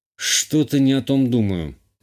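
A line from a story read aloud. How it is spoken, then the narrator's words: Grumbled under breath. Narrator (Russian): буркнул себе под нос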